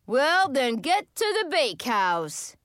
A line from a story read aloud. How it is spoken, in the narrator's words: he roared